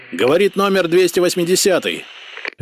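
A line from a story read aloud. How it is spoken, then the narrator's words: Barking. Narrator (Russian): рявкнул Ярослав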